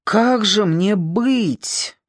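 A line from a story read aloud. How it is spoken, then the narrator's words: Groaning. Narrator (Russian): застонал Миллер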